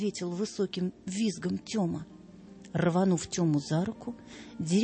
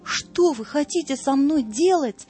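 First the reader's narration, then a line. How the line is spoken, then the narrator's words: Frantic scream. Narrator (Russian): неистово закричал Тёма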